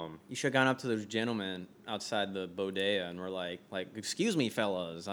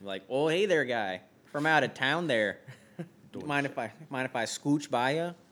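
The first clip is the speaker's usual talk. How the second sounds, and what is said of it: Put-on Midwestern American accent. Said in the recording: “Just hit with the Midwest accent.”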